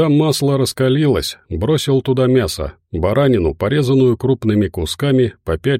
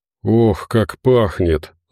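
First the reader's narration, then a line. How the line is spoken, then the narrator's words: Breathy exhale. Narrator (Russian): выдохнул Медведев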